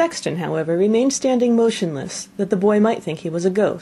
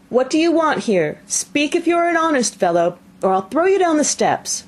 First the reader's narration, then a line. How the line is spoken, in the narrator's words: The boy cried a second time